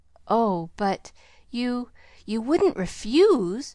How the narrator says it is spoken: faltered Pollyanna in quick panic

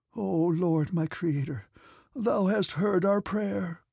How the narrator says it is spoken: said he in a tremulous voice

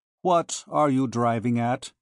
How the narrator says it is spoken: he said dryly

